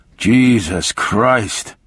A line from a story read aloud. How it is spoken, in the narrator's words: he muttered